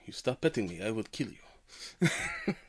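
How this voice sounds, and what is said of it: Cat voice with German accent. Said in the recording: “the cat has a German accent.”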